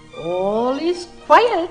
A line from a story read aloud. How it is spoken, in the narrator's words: chirped the bird gaily